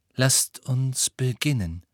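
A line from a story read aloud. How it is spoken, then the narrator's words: Plain. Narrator (German): sagte Firenze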